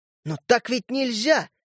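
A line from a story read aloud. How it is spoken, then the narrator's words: Exclamation. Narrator (Russian): наконец воскликнул я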